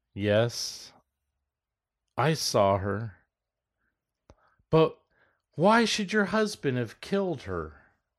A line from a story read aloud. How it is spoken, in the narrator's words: spoke soothingly, as one would speak to a person who was quite mad